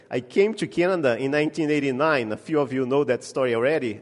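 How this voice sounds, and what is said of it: Brazilian-accented English. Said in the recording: “You get the bonus today of the accent. So you notice that I'm not from here ... I came to Canada sent by Brazil”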